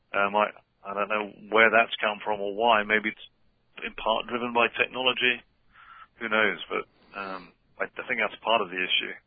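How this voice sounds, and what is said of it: Non-New Jersey accent. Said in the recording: “He's not from around here... That's not a New Jersey accent you're listening to.”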